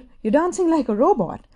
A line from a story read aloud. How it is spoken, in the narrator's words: Shinichi exclaimed